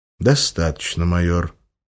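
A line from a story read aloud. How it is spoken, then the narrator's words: Perfectly calm interruption. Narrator (Russian): абсолютно спокойным тоном оборвал его рентген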